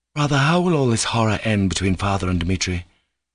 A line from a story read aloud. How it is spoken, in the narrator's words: exclaimed Alyosha